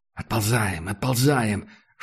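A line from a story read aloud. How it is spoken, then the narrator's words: Whispered command. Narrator (Russian): шепотом велел Макс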